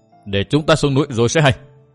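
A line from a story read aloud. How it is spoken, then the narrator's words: Princess's angry shout. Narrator (Vietnamese): công chúa Tuyết Liên nổi giận quát lên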